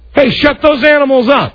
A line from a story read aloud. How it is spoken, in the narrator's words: the guy from across the street yells at me